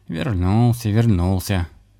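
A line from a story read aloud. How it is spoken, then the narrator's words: Gloomy cat. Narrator (Russian): мрачно подтвердил кот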